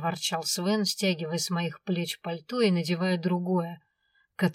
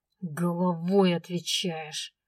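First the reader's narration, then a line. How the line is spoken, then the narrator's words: Angry, through clenched teeth. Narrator (Russian): зло процедил он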